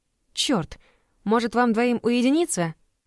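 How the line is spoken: Exclamation. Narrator (Russian): воскликнула Джордан

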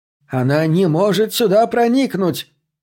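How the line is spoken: Sudden exclamation. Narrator (Russian): неожиданно воскликнул Кьюлик

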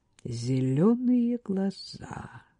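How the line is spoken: Quiet. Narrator (Russian): тихо проговорил он

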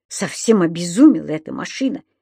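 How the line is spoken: Angry exclamation. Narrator (Russian): сердито воскликнул он

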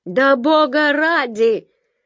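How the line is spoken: Yelling. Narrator (Russian): орал инспектор

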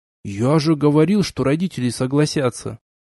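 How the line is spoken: Exclaimed. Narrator (Russian): воскликнул Иванил

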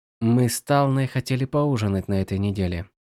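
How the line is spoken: Whispered. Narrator (Russian): прошептала она

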